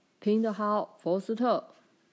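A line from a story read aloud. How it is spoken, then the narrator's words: Crowd shouting. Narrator (Chinese): 有些人大叫起来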